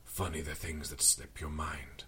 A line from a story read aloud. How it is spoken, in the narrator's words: I rasped